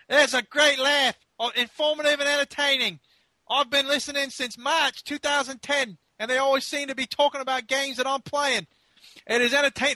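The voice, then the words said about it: Attempted Australian accent, stretched vowels. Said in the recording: “should I do it in an Australian accent? ... I don't even know what accent that was ... just sort of stretching some vowels there”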